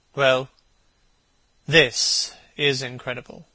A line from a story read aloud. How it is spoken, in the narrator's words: repeated Hallward, rather bitterly